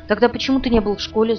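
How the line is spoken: Angry question. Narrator (Russian): зло спросила я

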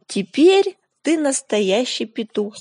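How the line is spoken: Plain. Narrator (Russian): сказала собака

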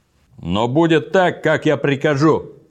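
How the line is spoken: Furious shout. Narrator (Russian): крикнул он, и лицо его побагровело

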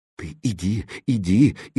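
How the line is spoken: Frightened whisper, cook. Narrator (Russian): испуганно зашептала кухарка

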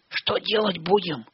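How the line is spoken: Whispered question. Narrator (Russian): шепотом спросил Растафарыч

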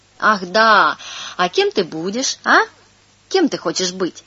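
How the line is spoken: Cheerful adult question. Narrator (Russian): взрослый, радостно улыбаясь, спросит

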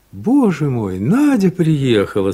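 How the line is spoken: Said, laughing merrily. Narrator (Russian): сказал он и весело рассмеялся

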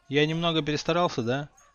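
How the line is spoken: Unhappy sigh. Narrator (Russian): С несчастным видом вздохнул Гарри

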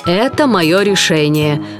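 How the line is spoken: Rough monster voice. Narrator (Russian): грубо сказала чудовище

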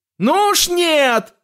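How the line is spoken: Shouted. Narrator (Russian): закричал Уильям

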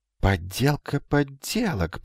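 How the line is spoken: Muttering. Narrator (Russian): пробормотал Магнан

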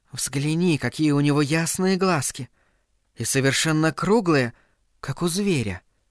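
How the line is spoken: Affected trembling whisper. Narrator (Russian): прошептала, жеманно вздрагивая и голосом

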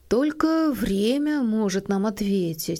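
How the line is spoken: Soft. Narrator (Russian): сказал он мягко

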